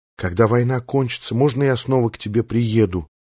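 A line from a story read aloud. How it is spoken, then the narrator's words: Whispered question. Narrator (Russian): шепотом спросила Риши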